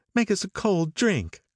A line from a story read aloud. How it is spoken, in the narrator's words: cried Daisy